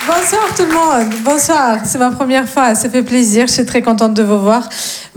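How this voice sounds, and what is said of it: Slight sing-song foreign accent. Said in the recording (French): “j'ai un petit accent, mais il est très mignon, très chantant.”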